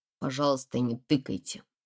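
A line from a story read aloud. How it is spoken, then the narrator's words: Quiet boy. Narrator (Russian): тихо сказал парнишка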